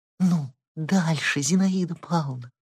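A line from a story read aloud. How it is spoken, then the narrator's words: Excited whisper. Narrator (Russian): взволнованным шепотом проговорила Лиза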